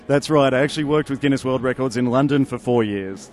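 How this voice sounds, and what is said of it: Australian accent. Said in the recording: “you're from Australia. ... I can tell by the accent.”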